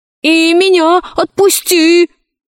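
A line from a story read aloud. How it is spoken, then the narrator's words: Shouting. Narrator (Russian): закричал профессор Синг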